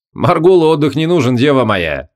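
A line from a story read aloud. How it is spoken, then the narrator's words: Amused snort. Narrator (Russian): хмыкнул Шамшудин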